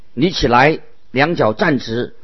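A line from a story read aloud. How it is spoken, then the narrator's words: Loud. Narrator (Chinese): 保罗 大声说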